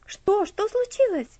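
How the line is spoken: Frightened question. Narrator (Russian): спросил Герберт испуганно

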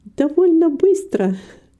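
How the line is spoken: Laughing. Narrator (Russian): засмеялась Рита

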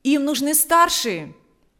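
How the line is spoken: Shouting. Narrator (Russian): прокричал ему Валериан

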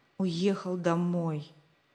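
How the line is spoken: Disappointed whisper. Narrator (Russian): разочарованно прошептал Рик

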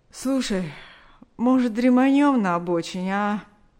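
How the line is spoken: Tired yawning suggestion. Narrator (Russian): Борис устало зевнул и предложил

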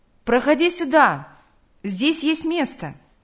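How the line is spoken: Shouted. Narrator (Russian): крикнул

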